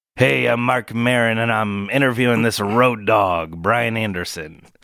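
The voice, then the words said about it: Imitates another person's voice, badly. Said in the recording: “worst Mark Maron impression ever recorded”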